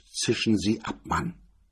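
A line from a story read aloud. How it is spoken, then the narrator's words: Curt and cold. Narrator (German): sagte kurz und kalt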